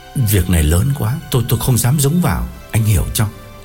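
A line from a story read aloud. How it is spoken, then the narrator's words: Trembling voice. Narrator (Vietnamese): gã run run bảo Quân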